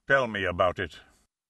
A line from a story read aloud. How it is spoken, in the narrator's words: Wolfe grunted, muttered